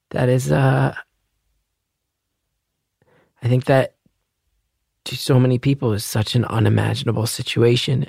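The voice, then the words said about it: Tearful, crying voice. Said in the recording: “I'm crying a little bit, just so you know. You're going to hear that in my voice.”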